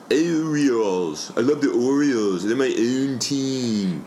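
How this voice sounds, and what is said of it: Exaggerated Maryland accent. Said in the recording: “one of those gnarly Maryland accents ... That's a real Maryland accent.”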